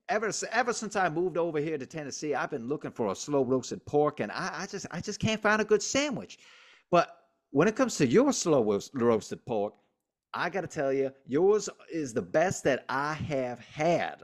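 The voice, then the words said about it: Put-on Southern accent. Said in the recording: “that's a hell of an accent ... I'm getting good at my Southern accents”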